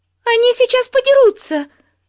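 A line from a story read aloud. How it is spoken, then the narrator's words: Shrill shriek. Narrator (Russian): пронзительно завизжала Бетси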